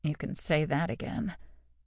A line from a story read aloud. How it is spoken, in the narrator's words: muttered with a sigh